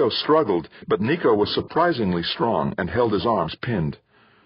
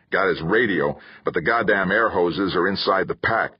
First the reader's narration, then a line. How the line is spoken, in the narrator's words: Kirk growled